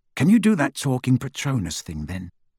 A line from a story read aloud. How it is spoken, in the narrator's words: asked Ron